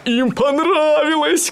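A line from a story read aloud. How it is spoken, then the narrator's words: Shouting. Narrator (Russian): кричал он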